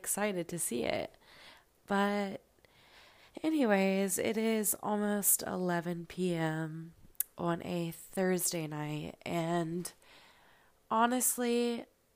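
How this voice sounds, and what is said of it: Tired-sounding voice. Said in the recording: “as you can probably tell, I sound tired.”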